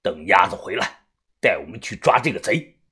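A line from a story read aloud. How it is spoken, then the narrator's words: Through gritted teeth. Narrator (Chinese): 于哥他咬牙说道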